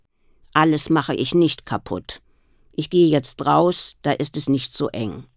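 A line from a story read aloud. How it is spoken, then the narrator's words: Plain. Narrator (German): sagte sie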